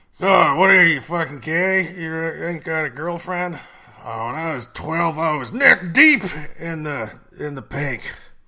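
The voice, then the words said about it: Mocking obnoxious uncle character voice. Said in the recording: “my impression of the uncle”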